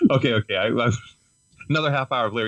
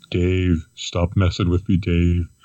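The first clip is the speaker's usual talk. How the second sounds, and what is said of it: Impersonation of HAL computer voice. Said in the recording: “doing Hal impersonation”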